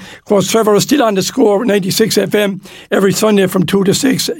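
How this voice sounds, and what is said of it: Hoarse, worn-out voice. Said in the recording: “Sorry, my voice, I never talk so much, lads. My voice is gone.”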